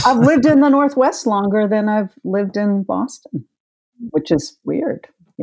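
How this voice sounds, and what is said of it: Boston accent. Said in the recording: “you haven't lost your accent ... it's definitely in there”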